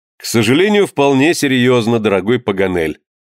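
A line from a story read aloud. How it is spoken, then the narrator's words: Answering amid laughter. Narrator (Russian): ответил среди общего хохота Гленарван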